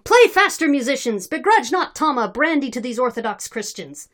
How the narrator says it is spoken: He kept shouting

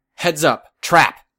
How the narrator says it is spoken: Weld shouted

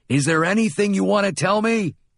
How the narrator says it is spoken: put my face within a few centimeters of his, and yelled

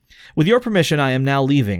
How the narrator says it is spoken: I said

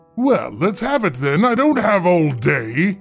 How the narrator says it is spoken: boomed

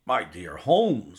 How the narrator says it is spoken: I exclaimed

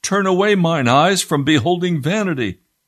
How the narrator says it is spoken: the pilgrims cried out

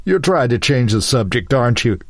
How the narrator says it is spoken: laughed harder

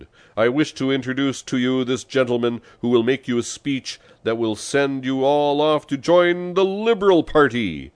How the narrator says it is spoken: shouted

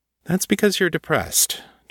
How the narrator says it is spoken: John said evenly

